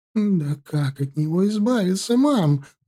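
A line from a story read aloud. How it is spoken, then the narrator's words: Sobbing. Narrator (Russian): разрыдалась Оксана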